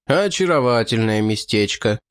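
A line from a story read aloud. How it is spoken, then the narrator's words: Gloomy remark. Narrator (Russian): мрачно заметил де Креньян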